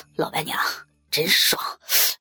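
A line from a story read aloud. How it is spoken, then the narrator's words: Excited, breathless man. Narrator (Chinese): 男人舒服的喘着气，激动的说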